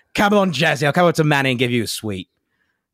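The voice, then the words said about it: Put-on Cockney accent. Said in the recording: “If I was going to do an accent, I'd be like ... Cockney phrases”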